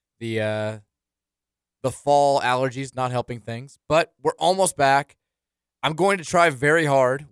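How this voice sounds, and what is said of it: Slightly raspy recovering voice. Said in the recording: “My voice is almost back. It's still a little raspy.”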